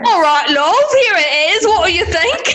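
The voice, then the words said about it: Put-on British accent. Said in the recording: “develop a British accent”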